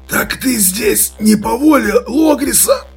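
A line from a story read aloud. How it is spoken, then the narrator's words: Strained, hoarse. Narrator (Russian): Он с трудом выдавил сиплую фразу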